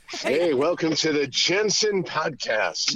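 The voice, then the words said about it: Put-on radio announcer voice. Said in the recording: “He's got a radio voice ... He's putting on his radio voice ... Oh, there's his real voice, right?”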